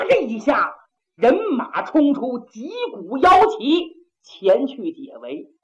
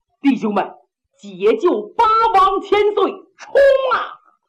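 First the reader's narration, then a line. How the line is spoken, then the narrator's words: Shouting. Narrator (Chinese): 胡丕显高喊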